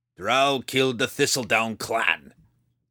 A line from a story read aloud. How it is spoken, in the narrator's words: he growled